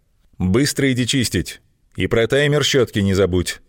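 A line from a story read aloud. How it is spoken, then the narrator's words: Stern reminder. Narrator (Russian): строгим голосом напомнил папа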